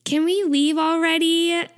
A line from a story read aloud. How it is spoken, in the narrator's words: Taeyong whines